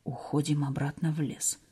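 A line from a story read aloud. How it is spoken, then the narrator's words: Whispered order. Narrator (Russian): Александр приказал шепотом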